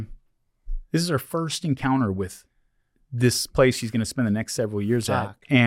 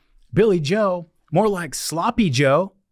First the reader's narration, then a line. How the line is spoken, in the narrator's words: somebody shouts out immediately, one of my friends shouts out